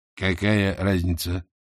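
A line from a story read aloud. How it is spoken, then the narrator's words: Sighing older woman. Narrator (Russian): Матушка вздохнула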